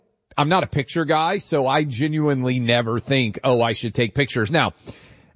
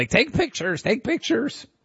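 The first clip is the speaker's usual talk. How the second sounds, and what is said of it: Imitates another person's voice. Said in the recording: “That's my impression of Producer Allie.”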